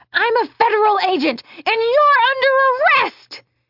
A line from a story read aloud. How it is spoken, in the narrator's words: Billy Ray, now running toward them, screamed